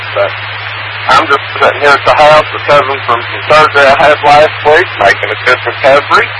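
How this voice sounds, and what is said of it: Tennessee Southern American accent. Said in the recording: “It's hard to understand my Tennessee accent sometimes. ... I do love a Tennessee accent”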